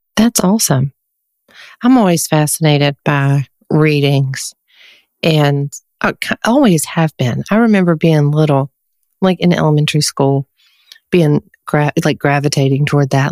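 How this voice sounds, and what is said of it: Southern American accent. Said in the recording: “I'm from the South, as you can probably tell from my accent”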